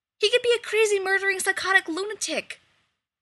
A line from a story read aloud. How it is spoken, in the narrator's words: Rodney snaps